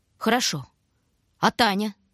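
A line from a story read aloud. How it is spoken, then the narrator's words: Stern. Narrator (Russian): Строго начал Шурка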